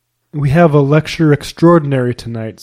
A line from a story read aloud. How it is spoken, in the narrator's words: said Mr